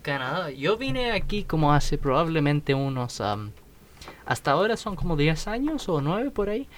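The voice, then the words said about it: Foreign accent in Spanish. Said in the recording (Spanish): “¿por qué tiene ese acento?”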